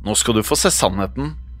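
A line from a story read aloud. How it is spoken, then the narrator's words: Whisper. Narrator (Norwegian): hvisket hun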